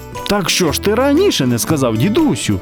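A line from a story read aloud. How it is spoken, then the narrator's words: Exclaimed. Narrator (Ukrainian): вигукнув Яша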